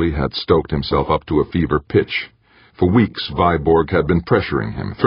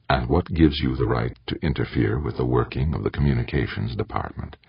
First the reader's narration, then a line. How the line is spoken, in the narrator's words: Softly, he asked